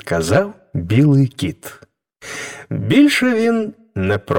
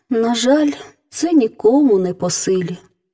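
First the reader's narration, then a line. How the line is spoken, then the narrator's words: Princess sighing. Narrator (Ukrainian): зітхнула королівна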